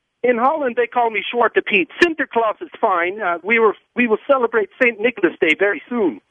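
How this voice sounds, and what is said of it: Put-on Dutch accent. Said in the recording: “He has the accent.”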